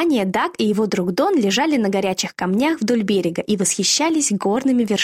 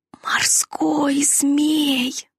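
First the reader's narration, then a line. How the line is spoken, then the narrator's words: Frightened whisper. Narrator (Russian): прошептал Дон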